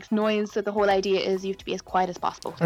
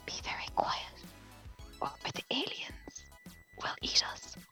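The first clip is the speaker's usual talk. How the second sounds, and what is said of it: Whispering. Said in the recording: “me whispering”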